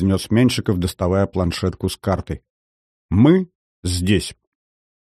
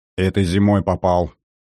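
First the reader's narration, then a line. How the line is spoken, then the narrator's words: Gloomy. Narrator (Russian): мрачно произнес тот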